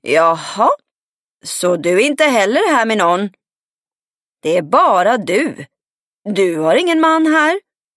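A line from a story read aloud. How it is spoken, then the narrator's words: Hoarse shout. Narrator (Swedish): ropade hon hes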